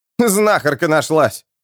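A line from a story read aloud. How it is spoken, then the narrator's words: Chuckling squire. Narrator (Russian): хохотнул оруженосец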